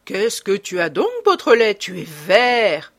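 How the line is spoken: Mocking snicker. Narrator (French): ricana Ganimard, tutoyant le jeune homme en manière de moquerie

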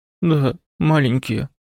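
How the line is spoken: Sad reply. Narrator (Russian): грустно отозвалась Тимонс

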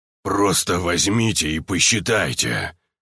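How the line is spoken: Deep guttural growl. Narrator (Russian): утробно прорычал первый

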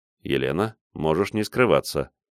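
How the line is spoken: Quiet. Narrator (Russian): тихо произнес я

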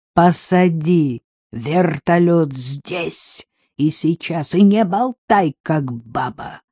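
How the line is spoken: Growling bandit. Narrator (Russian): прорычал бандит

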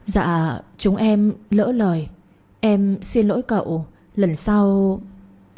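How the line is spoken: Trembling voices. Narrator (Vietnamese): hai đứa, giọng run rẩy cất lên

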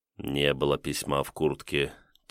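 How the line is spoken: Quiet, to himself. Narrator (Russian): тихо для себя сказал Кирилл

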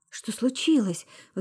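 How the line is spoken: Anxious question. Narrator (Russian): взволнованно поинтересовалась Марго

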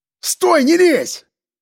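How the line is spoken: Shouting. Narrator (Russian): крикнул я

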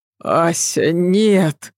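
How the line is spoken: Moaning. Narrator (Russian): простонал Адам

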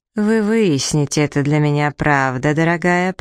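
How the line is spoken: Through gritted teeth. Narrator (Russian): процедил сквозь зубы Клэк

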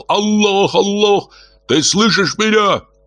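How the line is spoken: Shouted prayer. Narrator (Russian): Кто-то, воздевая руки к небу, кричал

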